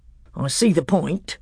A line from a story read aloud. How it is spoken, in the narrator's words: said Trumpkin dryly